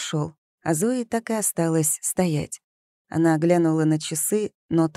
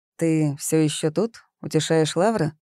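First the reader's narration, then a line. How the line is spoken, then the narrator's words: Rude question. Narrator (Russian): грубо спросил Август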